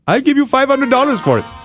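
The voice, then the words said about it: Put-on Indian accent. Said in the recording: “I just made up that he was Indian. Now I'm just randomly throwing accents in there.”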